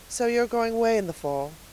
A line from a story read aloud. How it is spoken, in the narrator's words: said Miss Lavendar wistfully